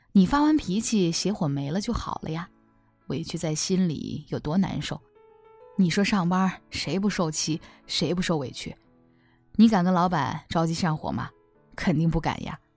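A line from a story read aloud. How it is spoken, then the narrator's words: Husband, smiling. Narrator (Chinese): 她老公笑着说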